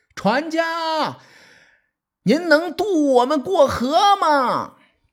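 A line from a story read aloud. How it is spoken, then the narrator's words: Calling out. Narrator (Chinese): 伍子胥喊他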